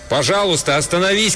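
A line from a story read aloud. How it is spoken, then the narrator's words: Shouted after someone. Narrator (Russian): крикнул я ему в спину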